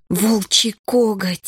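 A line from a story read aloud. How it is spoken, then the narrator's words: Breathless exhale. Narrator (Russian): выдохнула Лия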